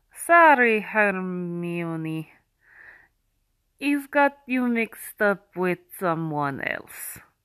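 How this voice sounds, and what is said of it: Deliberately bad put-on accent. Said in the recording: “do my stupid accent ... with a bad accent”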